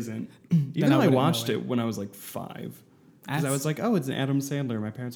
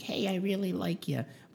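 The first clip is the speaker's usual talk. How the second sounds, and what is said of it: Dumb Adam Sandler Little Nicky voice. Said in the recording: “That's what his voice sounds like. Adam Sandler's going like peak, just dumb voice.”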